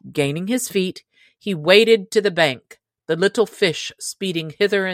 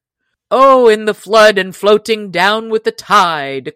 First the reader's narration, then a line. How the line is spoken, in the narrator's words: cried Robin, nor could he forbear laughing himself at his sorry plight